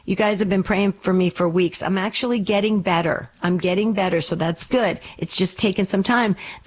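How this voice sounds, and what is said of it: Raspy voice. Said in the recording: “you hear a little bit of a continued kind of a raspy voice of mine”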